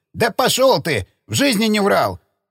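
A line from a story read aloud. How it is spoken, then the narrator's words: Offended falsetto shout. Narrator (Russian): Сбившись на фальцет, закричал оскорбленный хранитель кинотеатра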